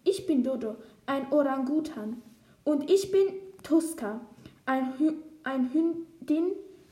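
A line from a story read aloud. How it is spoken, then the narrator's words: Plain answer. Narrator (German): antwortet sie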